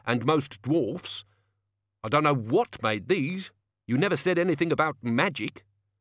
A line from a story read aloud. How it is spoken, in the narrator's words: Brown sharply